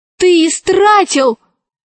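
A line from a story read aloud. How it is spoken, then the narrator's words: Shouting. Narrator (Russian): закричала Алиса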